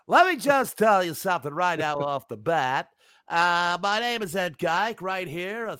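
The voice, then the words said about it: Fake professional announcer voice. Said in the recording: “I don't know why I'm doing this voice, but I feel like I'm using my professional announcer voice or my fake announcer voice.”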